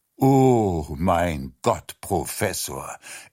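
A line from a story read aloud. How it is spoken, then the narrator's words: Sighing. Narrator (German): er seufzte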